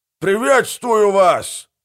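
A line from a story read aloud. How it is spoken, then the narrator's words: Shouting. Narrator (Russian): выкрикнул голый человек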